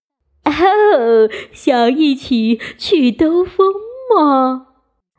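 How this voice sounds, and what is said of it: Charming, cheerful wolf voice. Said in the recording (Chinese): “一个迷人又愉快的声音说道”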